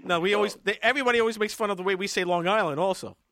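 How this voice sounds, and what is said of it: Brooklyn accent. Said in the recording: “I talk in Brooklynese”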